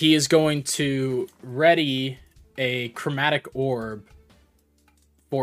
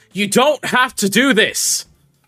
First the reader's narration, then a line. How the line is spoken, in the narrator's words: he's going to yell to him